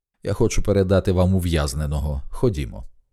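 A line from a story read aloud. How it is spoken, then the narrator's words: Calm. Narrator (Ukrainian): Олз спокійно сказав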